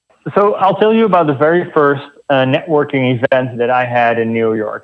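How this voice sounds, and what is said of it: Slight Dutch accent. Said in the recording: “I have a little bit of an accent. So originally I'm from the Netherlands”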